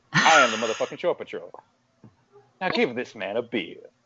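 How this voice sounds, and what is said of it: Good celebrity impression. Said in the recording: “Holy shit, that was good. ... That was really good. ... You did a good impression. You're supposed to do a bad one. That was really good.”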